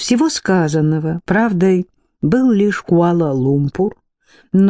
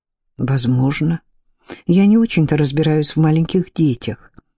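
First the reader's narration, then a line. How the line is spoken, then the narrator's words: Sighing. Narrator (Russian): вздохнула Дарлинг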